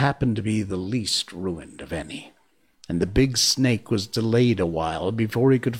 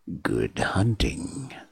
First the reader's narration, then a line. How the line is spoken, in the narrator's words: said Ka grimly